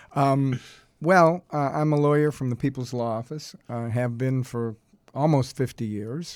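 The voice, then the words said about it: Boston accent. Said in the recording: “I grew up in Boston. Maybe you could tell from the way I was my accent.”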